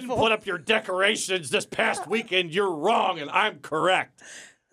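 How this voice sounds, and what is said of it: Imitates another person yelling. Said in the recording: “That's a good impression. ... Of you yelling?”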